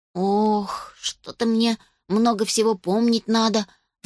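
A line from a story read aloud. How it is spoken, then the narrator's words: Sighing. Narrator (Russian): вздохнул Уля Александр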